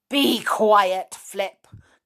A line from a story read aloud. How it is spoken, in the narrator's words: growled Binkle